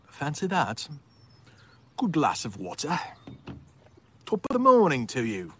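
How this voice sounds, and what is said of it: Put-on British accent. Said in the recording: “It's my best British accent.”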